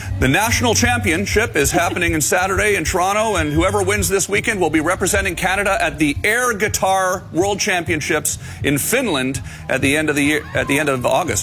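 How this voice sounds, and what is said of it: Announcer-style broadcast radio voice. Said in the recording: “You went into full broadcast voice ... radio voice ... You have to do the special voice.”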